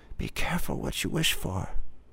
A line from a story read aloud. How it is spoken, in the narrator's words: From the shadows, the woman whispered